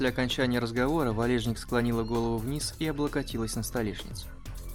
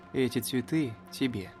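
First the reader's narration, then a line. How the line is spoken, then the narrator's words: Muffled, dull voice. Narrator (Russian): глухо проговорил Иван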